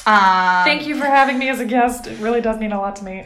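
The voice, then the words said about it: Deliberately weird put-on voice. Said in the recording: “I know I'm saying it in a weird voice, but that's just to cover up my emotions.”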